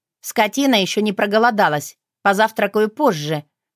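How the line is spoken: Grumbling. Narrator (Russian): буркнула я

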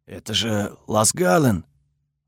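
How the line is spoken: Guard whispering. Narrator (Russian): шепот одного из охранников

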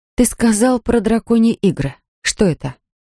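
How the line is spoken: Plain question. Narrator (Russian): спросила она

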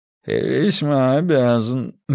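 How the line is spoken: Mumble. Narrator (Russian): мямлит Олдкасл

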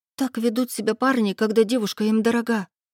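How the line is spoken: Frightened squeak, hare. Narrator (Russian): испуганно пискнула зайчиха

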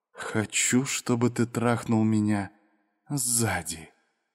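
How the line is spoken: Whisper, woman. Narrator (Russian): женщина прошептала

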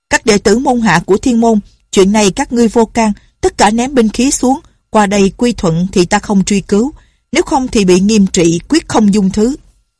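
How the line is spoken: Loud shout. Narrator (Vietnamese): Ngọc Cơ Tử la lên

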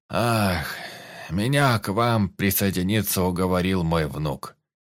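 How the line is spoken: Sighing old man. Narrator (Russian): вздохнул седой

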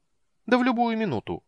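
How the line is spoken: Cheerful confirmation. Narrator (Russian): бодро подтвердил кендер

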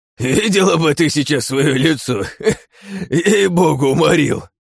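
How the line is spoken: Laughing old warrior. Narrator (Russian): Продолжал смеяться седой воин

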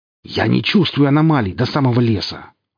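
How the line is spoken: Growled reply. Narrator (Russian): рыкнул он в ответ

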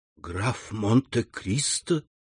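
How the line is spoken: Whispered. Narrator (Russian): прошептала она

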